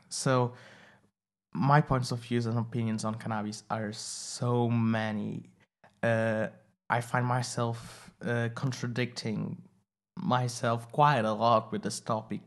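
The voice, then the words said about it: Portuguese accent. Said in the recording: “I'm saying it with a Portuguese accent, sorry, but that is going to be how I will pronounce it.”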